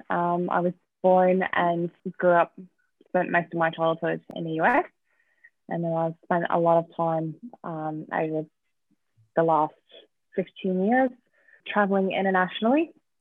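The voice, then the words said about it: Slight accent. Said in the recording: “there's a bit of an accent there.”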